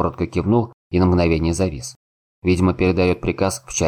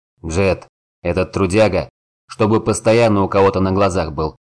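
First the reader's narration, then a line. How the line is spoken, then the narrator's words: Growl. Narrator (Russian): рыкнул Горд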